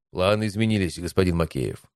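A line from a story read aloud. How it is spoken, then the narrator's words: Dry reply. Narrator (Russian): сухо ответил я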